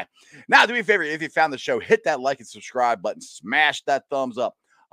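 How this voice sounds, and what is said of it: Voice sounds strained and different. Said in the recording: “apologize for my voice. I was screaming my head off yesterday, so it sounds a little different.”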